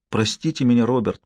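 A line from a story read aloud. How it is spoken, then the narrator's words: Whisper. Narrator (Russian): прошептала она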